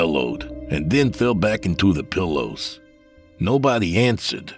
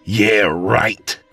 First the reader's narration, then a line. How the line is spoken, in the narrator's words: I snarled